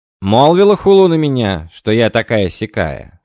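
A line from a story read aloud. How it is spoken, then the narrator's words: Stern question. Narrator (Russian): строго спросила императрица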